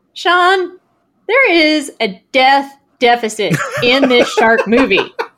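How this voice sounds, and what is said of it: Imitates another person's voice. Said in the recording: “That is surprisingly good, Ted Cruz impersonation.”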